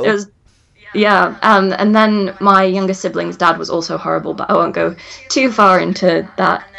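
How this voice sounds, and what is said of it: Kentish English accent, slight Nottingham. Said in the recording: “I don't have a Midlands accent. I have kind of a Kentish accent with a bit of Nottingham”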